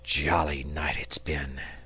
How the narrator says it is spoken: he murmured

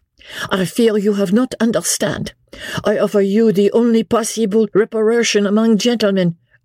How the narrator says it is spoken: interposed the Vicomte earnestly, and in still more broken English

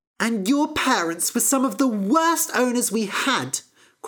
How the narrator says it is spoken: cried Fennel

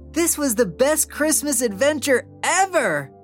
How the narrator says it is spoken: Oliver exclaimed, his heart racing with joy

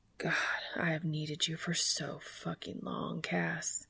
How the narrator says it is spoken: whispers

